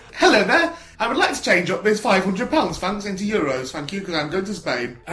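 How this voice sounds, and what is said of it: Funny character voice. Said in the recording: “do a funny voice”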